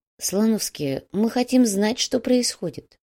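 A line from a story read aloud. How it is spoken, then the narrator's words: Quiet. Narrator (Russian): негромко произнес Нурсултан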